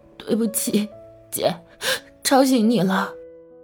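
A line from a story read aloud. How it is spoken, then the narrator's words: Tearful, subsiding sobs. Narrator (Chinese): 李小夏 渐渐止住抽泣，道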